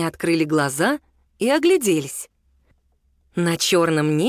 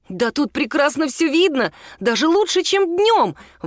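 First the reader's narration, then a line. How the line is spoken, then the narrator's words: Exclaimed. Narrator (Russian): воскликнул Мишун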